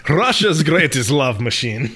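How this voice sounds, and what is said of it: Put-on Russian accent, done well. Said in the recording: “you do a great Russian accent”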